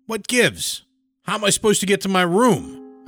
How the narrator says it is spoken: barked

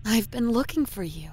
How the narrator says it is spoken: she says in a soothing voice, almost sweet

